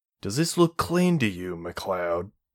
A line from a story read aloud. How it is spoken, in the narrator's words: growled